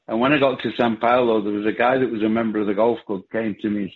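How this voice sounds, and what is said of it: Bolton English accent. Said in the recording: “I come from a place called Bolton, which gave me this accent I've got.”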